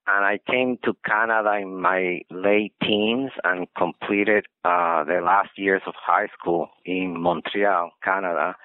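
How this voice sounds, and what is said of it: Spanish accent in English. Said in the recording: “as you can see from the accent, my mother tongue is Spanish”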